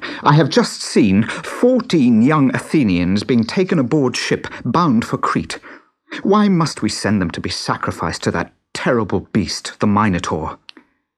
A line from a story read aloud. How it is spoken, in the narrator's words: cried